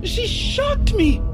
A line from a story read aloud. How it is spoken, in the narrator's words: The girl's freckles vanished into the pink of her cheeks, and instead of protesting the push, she shouted